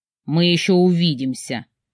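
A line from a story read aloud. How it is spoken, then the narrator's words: Frightening voice. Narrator (Russian): пугающим голосом проговорил мой муж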